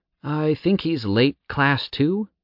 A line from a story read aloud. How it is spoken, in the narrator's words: Jowl said hesitantly